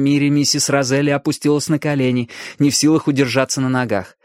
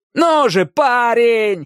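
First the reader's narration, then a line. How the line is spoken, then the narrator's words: Desperate yelling. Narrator (Russian): орал Иракес, стараясь вернуть Дэнни к жизни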